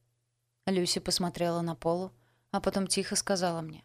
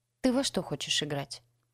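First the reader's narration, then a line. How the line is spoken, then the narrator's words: Quiet reply. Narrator (Russian): тихо ответила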